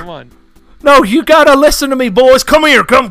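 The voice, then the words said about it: Imitates a video game character's voice. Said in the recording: “do the Dutch voice”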